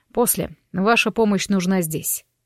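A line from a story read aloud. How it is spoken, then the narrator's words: Curt, young man. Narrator (Russian): отрывисто бросил парень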